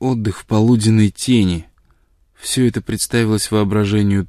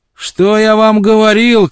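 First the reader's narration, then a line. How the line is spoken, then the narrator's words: Triumphant shout. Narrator (Russian): крикнул он им с торжеством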